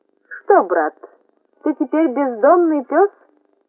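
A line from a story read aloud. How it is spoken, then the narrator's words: Tiny squeak. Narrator (Russian): пискнула бабочка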